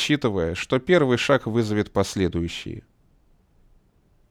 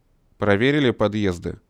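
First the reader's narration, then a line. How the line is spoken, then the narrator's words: Stern question. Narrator (Russian): строго спросил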